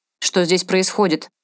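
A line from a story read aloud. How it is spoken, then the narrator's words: Barked loudly. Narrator (Russian): гаркнул он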